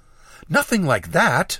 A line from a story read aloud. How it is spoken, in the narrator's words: she exclaimed